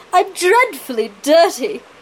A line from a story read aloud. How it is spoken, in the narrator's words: she whined